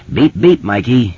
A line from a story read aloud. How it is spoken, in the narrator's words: Richie says solemnly